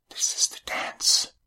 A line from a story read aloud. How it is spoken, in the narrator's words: whispered